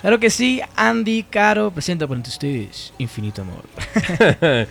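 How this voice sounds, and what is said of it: Announcer-style broadcast voice. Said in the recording (Spanish): “Con voz de locutor y todo.”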